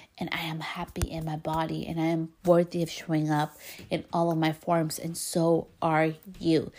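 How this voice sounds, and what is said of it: Speaks English with an accent. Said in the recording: “I have an accent in Spanish and English”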